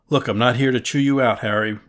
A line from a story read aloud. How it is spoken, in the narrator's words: replied Bresler